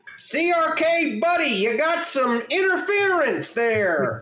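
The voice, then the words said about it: Loud shouting character impression. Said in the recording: “I'm fucking David Lynch's character, just screaming over this sound ... That's actually a pretty good impression.”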